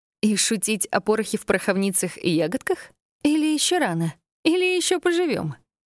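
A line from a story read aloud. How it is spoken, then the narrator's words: Grim chuckle. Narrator (Russian): хохотнула мрачно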